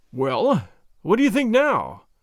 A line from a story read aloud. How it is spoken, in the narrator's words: I gasped